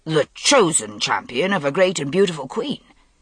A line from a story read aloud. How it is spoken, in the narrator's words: amended hastily